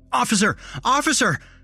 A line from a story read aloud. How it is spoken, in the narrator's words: I shouted